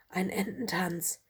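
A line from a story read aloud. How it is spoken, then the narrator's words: Soft whisper. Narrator (German): flüsterte Lola leise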